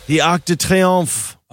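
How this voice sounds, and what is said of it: Overdone French-style pronunciation. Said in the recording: “don't do the accent ... You know you overdo it.”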